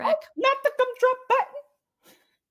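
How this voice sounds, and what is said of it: Cartoon gingerbread man character voice. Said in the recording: “That was a good impression.”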